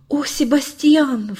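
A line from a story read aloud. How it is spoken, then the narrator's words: Forced out. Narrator (Russian): выдавил он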